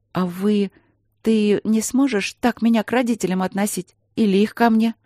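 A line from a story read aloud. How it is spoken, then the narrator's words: Uncertain question. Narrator (Russian): спросила она неуверенно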